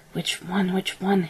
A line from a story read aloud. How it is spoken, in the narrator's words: muttered